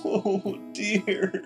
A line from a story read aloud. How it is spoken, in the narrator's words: he sobbed